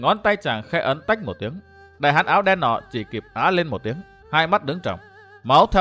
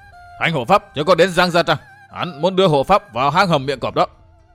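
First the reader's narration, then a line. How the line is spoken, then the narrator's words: Wounded man howling. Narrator (Vietnamese): Tên thủ hạ bị thương nơi cổ, máu chảy đẫm vai áo gào lên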